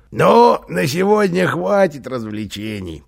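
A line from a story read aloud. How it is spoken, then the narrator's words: Speaking through laughter. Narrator (Russian): проговорил он сквозь смех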